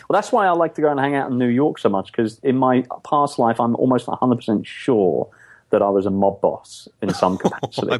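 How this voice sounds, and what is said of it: English accent. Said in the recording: “I'm thinking of the whole English thing. ... I'm messing you up already with my accent.”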